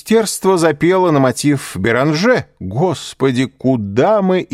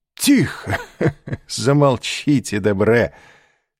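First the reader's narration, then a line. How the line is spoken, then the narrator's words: Laughing. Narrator (Russian): сказал, смеясь, Башан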